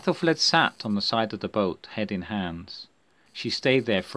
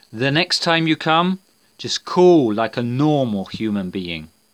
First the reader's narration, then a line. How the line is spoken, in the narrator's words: shouted